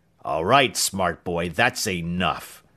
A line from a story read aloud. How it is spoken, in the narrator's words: he growled